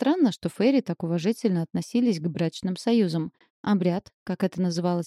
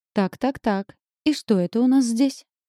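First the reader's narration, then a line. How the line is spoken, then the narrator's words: Loud cooing over festivities. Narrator (Russian): проворковал за спиной Арджуна голос, заглушая шум празднества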